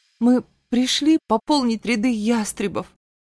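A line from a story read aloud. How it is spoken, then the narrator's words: Trembling voice. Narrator (Russian): дрожащим голосом произнесла я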